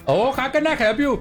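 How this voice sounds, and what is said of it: Put-on Punjabi accent. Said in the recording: “like Punjabi or something? ... Do it with the accent.”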